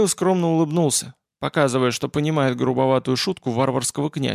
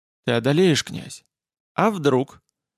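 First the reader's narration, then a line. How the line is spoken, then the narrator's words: Sad, smiling. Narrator (Russian): Гамаил печально улыбнулся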